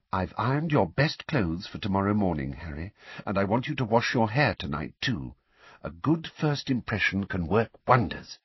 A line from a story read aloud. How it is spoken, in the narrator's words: Weasley said quietly